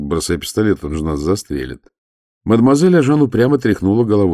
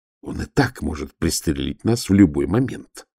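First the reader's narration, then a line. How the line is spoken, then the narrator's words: Hissing. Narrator (Russian): зашипел Волин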